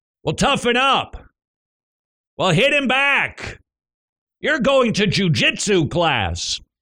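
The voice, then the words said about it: Imitates a parent's dismissive voice. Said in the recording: “my impersonation of... you”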